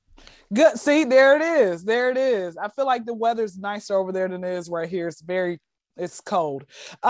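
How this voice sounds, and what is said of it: Atlanta, Georgia accent. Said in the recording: “Born and raised in Atlanta, Georgia... my accent seems different”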